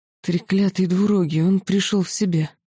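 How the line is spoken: Groan. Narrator (Russian): простонал магистр Тессорт

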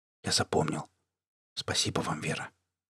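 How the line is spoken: Whisper. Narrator (Russian): А Полынцев еле заметно кивнул и шепнул

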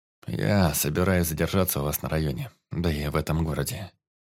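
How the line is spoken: Quiet lifeless voice. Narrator (Russian): произнес он тихим и каким-то безжизненным голосом

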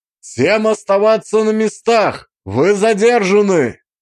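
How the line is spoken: Confident shout, echoing. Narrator (Russian): Крикнул я, и мой голос, усиленный эхом тоннеля, прозвучал не то чтобы грозно, но достаточно уверенно

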